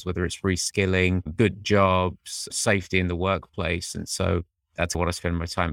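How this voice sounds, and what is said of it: Faint British accent. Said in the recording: “I have a fading British accent”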